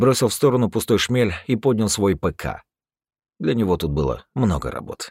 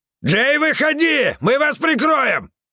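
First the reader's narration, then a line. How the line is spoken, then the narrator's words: Yelling. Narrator (Russian): орал медведь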